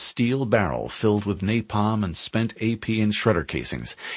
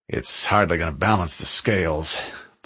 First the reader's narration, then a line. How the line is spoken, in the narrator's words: Blue 3 muttered